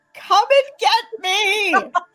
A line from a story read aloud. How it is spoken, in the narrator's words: yell